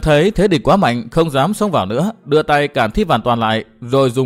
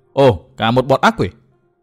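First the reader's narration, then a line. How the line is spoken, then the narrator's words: Loud shout. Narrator (Vietnamese): Tư Mã Minh hét to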